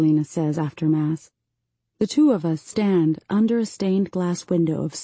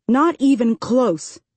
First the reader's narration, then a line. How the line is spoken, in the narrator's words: she says angrily